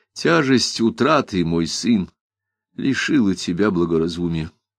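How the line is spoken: Soft, sad, weary. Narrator (Russian): Мягко, грустно и устало сказал

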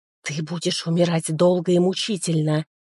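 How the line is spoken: Hissed. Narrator (Russian): прошипел он

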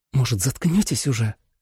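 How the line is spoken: Hissed. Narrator (Russian): прошипела Джули

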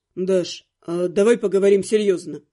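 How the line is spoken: Cold. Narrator (Russian): Холодно произнес он

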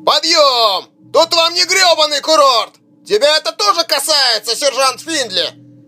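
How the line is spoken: Mocking bark. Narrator (Russian): С издевкой гаркнул Беллами

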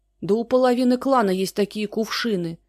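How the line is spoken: Shouted. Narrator (Russian): закричала тетка

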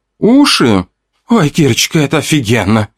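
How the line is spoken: Moaning. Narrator (Russian): Простонала Вика

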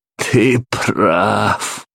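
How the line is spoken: Laughing. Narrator (Russian): рассмеялся Уильям

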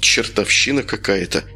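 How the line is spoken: Puzzled mutter. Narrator (Russian): пробормотал Юра

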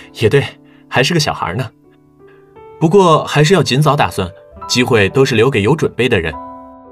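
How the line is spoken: Smiling. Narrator (Chinese): 王宇轩……笑了

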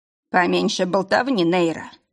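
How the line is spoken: Bitter clipped mutter. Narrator (Russian): желчно процедил Лейн

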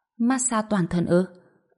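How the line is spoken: Trembling. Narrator (Vietnamese): Bạch Diệp Phi run rẩy nói

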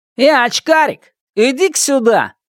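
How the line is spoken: Shout. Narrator (Russian): крикнул Шунь

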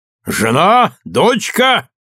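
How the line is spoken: Cheerful shout. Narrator (Russian): весело крикнул

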